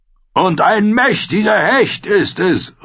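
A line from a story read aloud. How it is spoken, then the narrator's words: Calling out. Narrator (German): rief er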